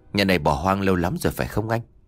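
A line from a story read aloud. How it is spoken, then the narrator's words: Soft whisper. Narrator (Vietnamese): khẽ bảo nhỏ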